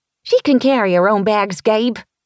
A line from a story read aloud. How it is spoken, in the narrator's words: Willie called out